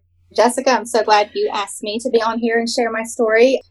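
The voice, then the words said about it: Southern US accent. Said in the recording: “just love listening to the Southern accent”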